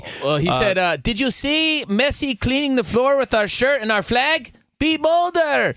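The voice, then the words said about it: Impression of Canelo Alvarez. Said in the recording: “that's my Canelo impression... a good one”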